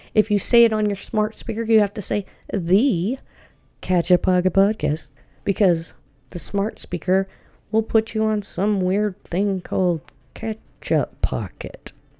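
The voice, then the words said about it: Slight Southern drawl. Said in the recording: “I have a little southern drawl.”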